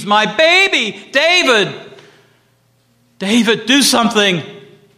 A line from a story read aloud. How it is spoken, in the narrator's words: Sarah screams